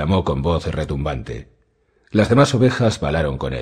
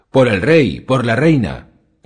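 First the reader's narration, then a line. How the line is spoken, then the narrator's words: Group shouting. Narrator (Spanish): gritaron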